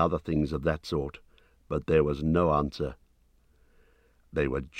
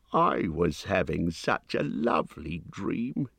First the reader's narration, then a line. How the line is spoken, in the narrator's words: he grumbled